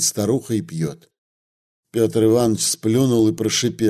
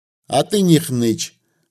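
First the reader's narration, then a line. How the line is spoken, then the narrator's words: Plain. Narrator (Russian): говорит старуха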